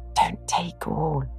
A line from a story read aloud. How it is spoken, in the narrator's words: whispered a neighbour, a young lady